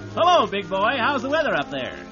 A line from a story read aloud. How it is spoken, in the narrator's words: shouted